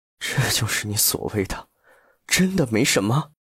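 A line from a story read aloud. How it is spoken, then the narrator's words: Hoarse demanding question. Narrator (Chinese): 哑声质问道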